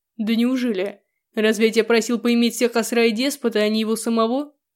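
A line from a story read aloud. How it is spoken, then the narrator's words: Man's harsh bark. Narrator (Russian): рявкнул мужчина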